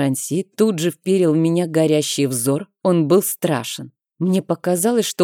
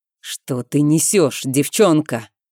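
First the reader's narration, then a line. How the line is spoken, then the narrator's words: Through clenched teeth. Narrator (Russian): процедил он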